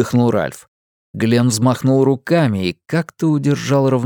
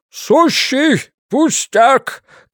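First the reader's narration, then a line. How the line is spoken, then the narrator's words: Calling down. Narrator (Russian): крикнул вниз Глен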